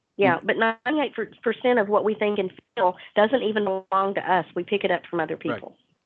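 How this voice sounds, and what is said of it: Texas accent, voice with a cold. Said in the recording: “from the accent, you can figure out that she's from Texas ... and has a cold.”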